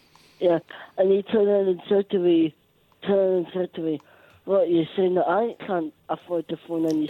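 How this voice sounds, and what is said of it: Scottish accent. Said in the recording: “He said can't in a Scottish accent. It sounded like the other word, but it was can't ... excuse my Scottish accent.”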